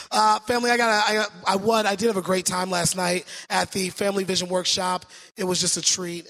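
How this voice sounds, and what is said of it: Hoarse, weakened voice. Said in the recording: “my voice is not 100% ... My voice is gone”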